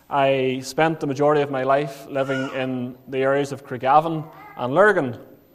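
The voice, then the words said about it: County Armagh accent. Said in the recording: “you maybe can detect from the accent, but I was born in County Armagh”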